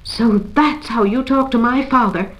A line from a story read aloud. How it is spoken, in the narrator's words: she exclaimed